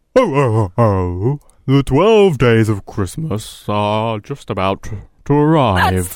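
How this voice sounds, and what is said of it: Put-on deep Santa-style voice. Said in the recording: “good Santa impression ... That's not a Santa impression. That's just you doing a deep voice.”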